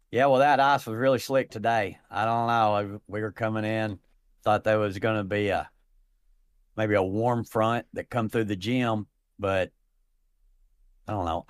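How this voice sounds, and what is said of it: Put-on redneck accent. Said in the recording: “I've got this accent... There's not a lot of redneck curlers.”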